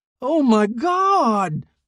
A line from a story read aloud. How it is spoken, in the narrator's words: he screamed